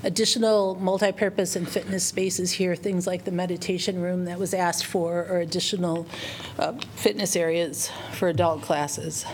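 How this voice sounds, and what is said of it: Hoarse, fading voice. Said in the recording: “talk a lot, and I'm still losing my voice.”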